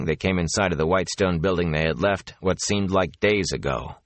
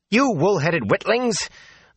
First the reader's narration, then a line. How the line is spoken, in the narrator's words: the wisdom snapped